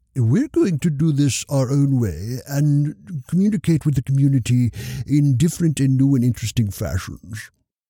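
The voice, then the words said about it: Put-on accent. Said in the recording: “That's not actually what they said or with that accent.”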